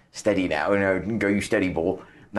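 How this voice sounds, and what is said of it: Bad put-on Norfolk accent. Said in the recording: “That was a very bad Norfolk accent.”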